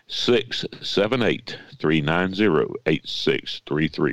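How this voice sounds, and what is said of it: Announcer-style radio voice. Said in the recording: “with my best radio voice ... radio voice”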